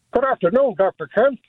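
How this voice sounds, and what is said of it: Imitates another person's voice, badly. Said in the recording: “terrible impression of me impersonating Dr. Ken ... Isn't it terrible? ... Awful.”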